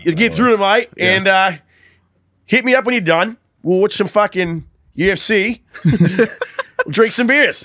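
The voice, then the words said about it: Australian accent. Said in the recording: “This is an excellent accent. ... That's an impressive ass Australian accent. That's the hardest one to do. ... you nailed it.”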